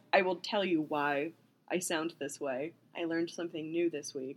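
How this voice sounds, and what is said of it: Husky, strained voice. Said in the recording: “I have a sexy voice today.”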